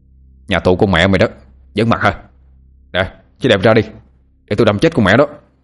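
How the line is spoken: Shouting. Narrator (Vietnamese): quát lên

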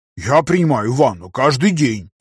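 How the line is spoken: Offended declaration. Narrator (Russian): обиженно заявил Сумкин

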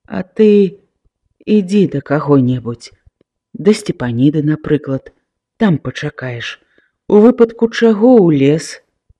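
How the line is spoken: Father, tender. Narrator (Belarusian): Бацька ласкава сказаў

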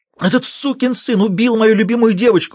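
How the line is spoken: Shrieking. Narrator (Russian): взвизгнул Сандерс

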